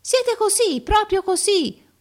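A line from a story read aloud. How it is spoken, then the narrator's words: Everyone yelling. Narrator (Italian): urlavano tutti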